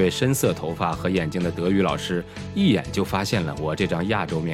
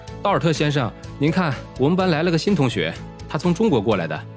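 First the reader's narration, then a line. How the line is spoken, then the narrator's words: Calling out. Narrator (Chinese): 后排的同学有人叫着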